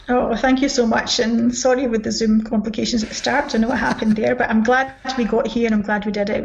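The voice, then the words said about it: Scottish accent. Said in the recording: “another Scottish accent”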